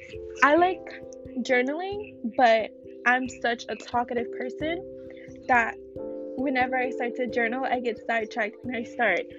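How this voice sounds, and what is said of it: Shaky voice. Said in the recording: “my voice sounds shaky like this? I sound like a boy going through puberty”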